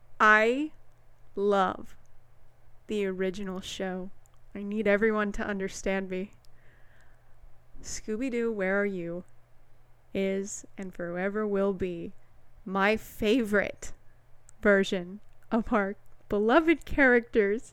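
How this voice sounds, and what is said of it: Very slow speech. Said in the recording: “Why are you talking so slow?”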